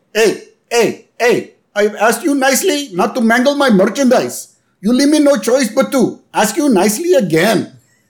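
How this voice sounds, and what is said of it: Indian accent impression of Apu. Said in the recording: “I'm going to say this with the accent ... the Indian accent ... I'm making fun of Apu.”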